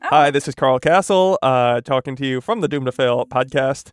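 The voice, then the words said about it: Imitates a professional newscaster's voice. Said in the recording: “best Tim Dobbs impression. ... It's very good because I am a professional newscaster.”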